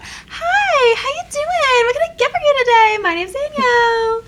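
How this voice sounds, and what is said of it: Overly friendly customer service voice. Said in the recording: “customer service voice... Customer service voice. It's a real thing. It's almost like a telephone voice, but worse.”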